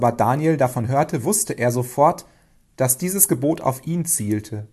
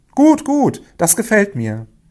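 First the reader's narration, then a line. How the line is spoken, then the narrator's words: Flattered king calling out. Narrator (German): fühlte sich der König geschmeichelt und rief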